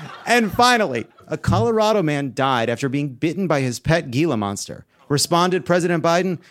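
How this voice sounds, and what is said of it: Usual voice. Nothing is said of it.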